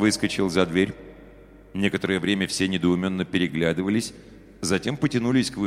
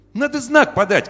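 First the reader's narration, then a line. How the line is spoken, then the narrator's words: Boy shouting. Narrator (Russian): крикнул мальчишка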